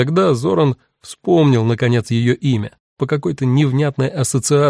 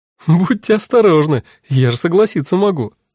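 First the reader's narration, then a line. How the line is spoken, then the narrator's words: Woman laughing. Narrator (Russian): рассмеялась женщина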